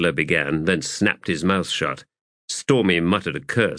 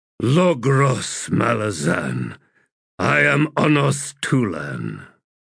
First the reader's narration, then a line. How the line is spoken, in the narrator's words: in a heavy, rasping voice, the warrior said